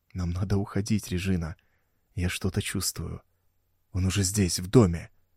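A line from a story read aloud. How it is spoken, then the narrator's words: Maniac's whisper. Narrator (Russian): прошептал маньяк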